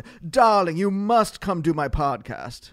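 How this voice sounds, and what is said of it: Posh Mid-Atlantic accent. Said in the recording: “that was your Mid-Atlantic posh... I was doing a Mid-Atlantic posh accent”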